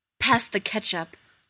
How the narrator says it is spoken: muttered

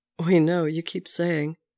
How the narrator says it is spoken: Bucky told him, laughing

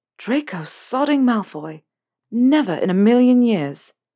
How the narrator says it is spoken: in a much more surprised tone

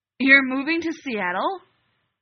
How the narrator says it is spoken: Alec blurted

